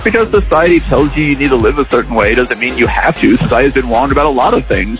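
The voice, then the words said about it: Childlike voice, dropped R sounds. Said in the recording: “Did you just drop your R because you're talking like a child?”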